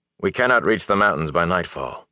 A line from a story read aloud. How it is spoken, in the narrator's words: Lan said